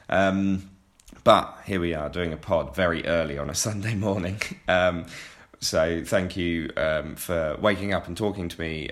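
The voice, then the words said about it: Tired, rough-sounding voice. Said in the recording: “I'm doing pantomime and that's why my voice sounds horrendous... it's fairly tired”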